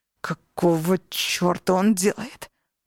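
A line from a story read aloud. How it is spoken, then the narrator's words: Growl. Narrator (Russian): прорычал Алессандро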